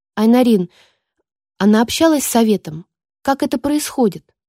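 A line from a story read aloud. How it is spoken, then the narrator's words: Plain. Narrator (Russian): спросила я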